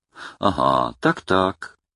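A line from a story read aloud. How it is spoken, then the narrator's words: Gentle chuckle. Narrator (Russian): ласково посмеивается Шустрый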